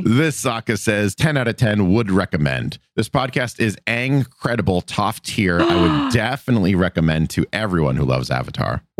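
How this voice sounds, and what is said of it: Deeper, baritone-range sick voice. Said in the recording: “I'm sick. You can hear it in my voice. I get a little deeper, a little more in the baritone range when I'm sick.”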